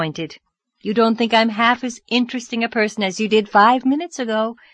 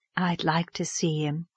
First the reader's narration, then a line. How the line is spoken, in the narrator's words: said Miss Lavendar softly, as if talking to herself